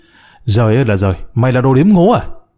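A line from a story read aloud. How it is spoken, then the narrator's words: Angry. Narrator (Vietnamese): Tay chủ quán ... giận dữ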